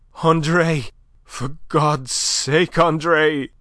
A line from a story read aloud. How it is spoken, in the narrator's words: she panted hoarsely over her shoulder